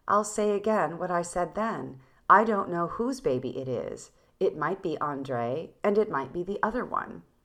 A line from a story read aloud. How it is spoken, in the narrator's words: She replied quite calmly